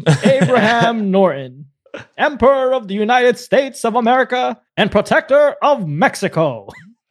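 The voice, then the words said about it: Old-timey radio announcer voice. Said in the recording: “that was like a good old 80s cartoon or something. ... Sounded like a 1950s radio voice.”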